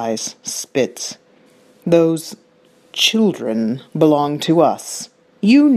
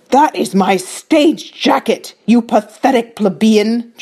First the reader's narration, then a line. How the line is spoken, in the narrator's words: Juhuri roars